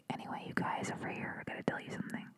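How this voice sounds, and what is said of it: Whispering. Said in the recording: “I'm like whispering now.”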